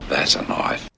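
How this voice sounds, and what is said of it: Impression of Australian film character. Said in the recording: “my impersonation ... Crocodile Dundee from the movie Crocodile Dundee, as portrayed by Australian actor Paul Hogan”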